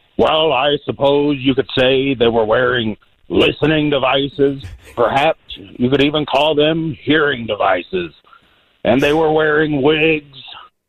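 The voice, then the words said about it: Imitates another person's voice. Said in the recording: “Richard Nixon impersonation”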